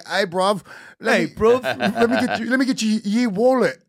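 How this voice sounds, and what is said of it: Mock British street accent. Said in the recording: “British people as like gang members. It's just their accent is so adorable.”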